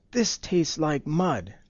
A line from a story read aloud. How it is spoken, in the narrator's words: the Tsar exclaimed, spitting out the bread